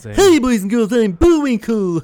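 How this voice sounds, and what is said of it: Bullwinkle cartoon character impression. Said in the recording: “my impersonations because I can do that stuff ... impersonations”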